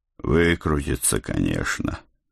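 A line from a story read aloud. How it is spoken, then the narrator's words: Sigh. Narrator (Russian): вздохнул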